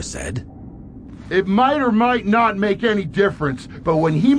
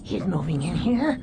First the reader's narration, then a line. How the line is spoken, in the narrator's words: She said, so quietly it was hard to hear her through the mask